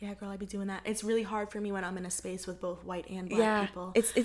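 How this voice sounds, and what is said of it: Usual voice. Nothing is said of it.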